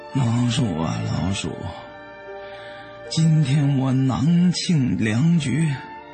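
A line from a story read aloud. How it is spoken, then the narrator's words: Dejected sighing. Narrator (Chinese): 他愁闷无策，叹息的对老鼠说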